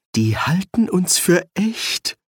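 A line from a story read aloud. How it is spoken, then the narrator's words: Groaned. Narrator (German): stöhnte Ginger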